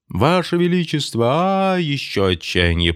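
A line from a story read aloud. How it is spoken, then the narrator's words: Shouting. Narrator (Russian): прокричал Кириллов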